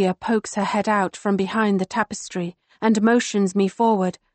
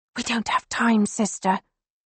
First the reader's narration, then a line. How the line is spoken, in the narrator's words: she whispers